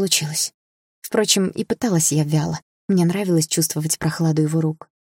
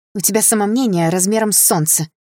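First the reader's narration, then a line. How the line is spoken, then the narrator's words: Snort. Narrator (Russian): хмыкнула я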